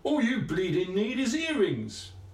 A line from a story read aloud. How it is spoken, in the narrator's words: shouted